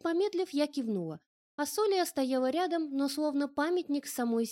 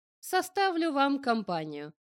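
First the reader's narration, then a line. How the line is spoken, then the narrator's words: Surprisingly friendly offer. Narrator (Russian): на удивление компанейским тоном предложил оставшийся неймарец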